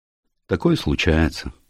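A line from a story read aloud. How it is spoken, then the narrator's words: Sighing. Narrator (Russian): сказал инспектор Келси и вздохнул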